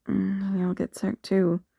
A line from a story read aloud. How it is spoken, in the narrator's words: Cody mumbled